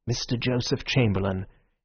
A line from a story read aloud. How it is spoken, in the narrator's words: there came a murmur of